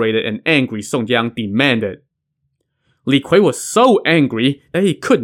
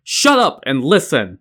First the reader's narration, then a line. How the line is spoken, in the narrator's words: Song Jiang shouted